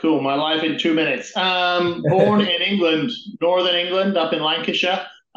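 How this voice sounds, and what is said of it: Non-North American, British accent. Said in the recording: “you obviously don't have an American or a Canadian accent, so you're from elsewhere across the pond”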